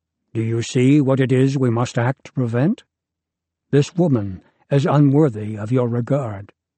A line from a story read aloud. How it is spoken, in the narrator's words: says gravely